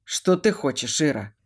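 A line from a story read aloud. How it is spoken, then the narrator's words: Tired question. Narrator (Russian): Устало спрашиваю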